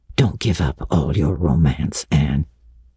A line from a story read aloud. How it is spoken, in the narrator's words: he whispered shyly